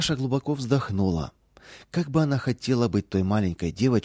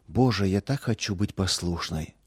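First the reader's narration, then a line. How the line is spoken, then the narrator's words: Whisper. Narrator (Russian): шептала она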